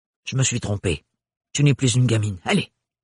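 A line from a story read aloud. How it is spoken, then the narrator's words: Gruff. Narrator (French): dit-elle d'un ton bourru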